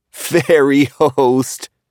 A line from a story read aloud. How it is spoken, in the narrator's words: Paul laughed quietly